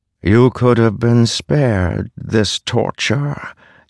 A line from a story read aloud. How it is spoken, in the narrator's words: Taravangian said, his voice vibrating with the force of 1,000 drums